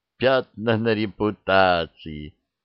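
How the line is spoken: Exclamation with short laugh. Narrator (Russian): воскликнула Макс, коротко хохотнув

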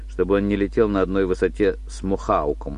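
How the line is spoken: Calm. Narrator (Russian): спокойно сказал сейчас Уоллес

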